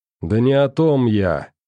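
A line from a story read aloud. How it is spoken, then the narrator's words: Irritated interruption. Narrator (Russian): раздраженно прервал его Сашка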